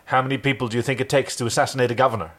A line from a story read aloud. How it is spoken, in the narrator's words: she snapped back defensively